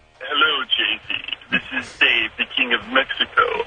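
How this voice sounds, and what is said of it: Good King of Mexico character voice. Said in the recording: “That's a pretty good king. That's a pretty good impression.”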